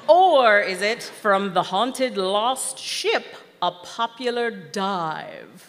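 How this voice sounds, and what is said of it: Funny put-on voice. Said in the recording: “kudos on the voice ... funny voice”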